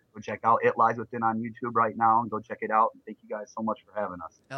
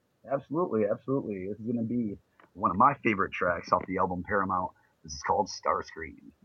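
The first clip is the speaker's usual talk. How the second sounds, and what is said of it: Radio announcer voice. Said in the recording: “You have a little bit of radio voice there.”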